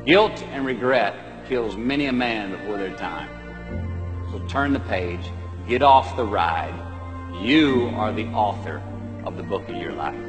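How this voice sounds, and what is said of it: Matthew McConaughey impression. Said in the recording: “worst Matthew McConaughey impression”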